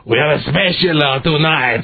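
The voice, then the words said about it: Clumsy put-on accent. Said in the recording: “I can't do my Chinese accent. I'm sorry. I'll sound too Italian”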